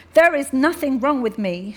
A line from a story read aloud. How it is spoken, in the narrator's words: she said angrily